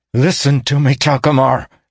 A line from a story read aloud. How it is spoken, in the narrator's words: snarled Caden, putting every ounce of urgency and emotion and energy he had left into the words